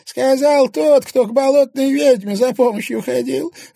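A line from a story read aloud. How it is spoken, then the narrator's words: Guffawing. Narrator (Russian): расхохотался Устинья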